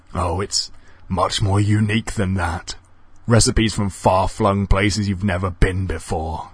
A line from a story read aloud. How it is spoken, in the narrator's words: said the stranger, muffling a chuckle